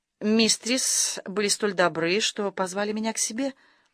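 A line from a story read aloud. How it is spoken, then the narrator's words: Timid. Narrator (Russian): Она сказала ей робко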